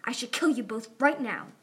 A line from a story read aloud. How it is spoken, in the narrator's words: Glory snarled